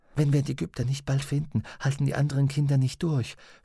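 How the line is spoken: Whispered. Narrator (German): flüsterte sie Pantalaimon zu

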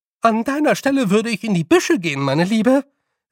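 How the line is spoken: Calling after. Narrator (German): rief ihr Frau Grad nach

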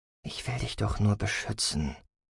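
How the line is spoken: Murmuring. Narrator (German): murmelte

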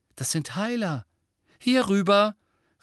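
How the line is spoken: Call out. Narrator (German): rief Mrs

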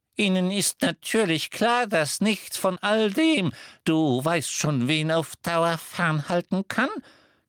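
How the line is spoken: Squeaking. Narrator (German): quiekte Flitwick

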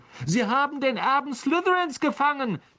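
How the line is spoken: Girl's high squeal. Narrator (German): quiekte ein Mädchen am Ravenclaw-Tisch

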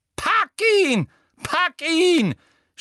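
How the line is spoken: Screaming. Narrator (German): schrie Umbridge

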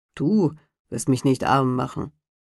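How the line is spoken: Grumbling to himself. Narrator (German): Der Fuhrmann aber brummte vor sich hin

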